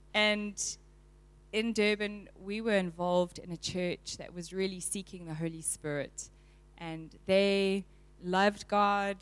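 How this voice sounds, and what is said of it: South African Durban accent. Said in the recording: “I'm from Durban. You can hear the accent. Am I speaking too fast?”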